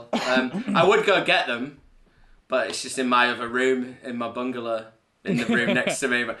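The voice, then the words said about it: Drunk, slurred speech. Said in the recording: “I'm drunk again, as you can probably tell. I'm slurring.”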